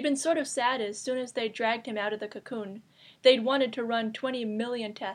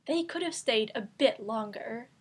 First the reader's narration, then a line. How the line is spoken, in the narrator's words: said crossly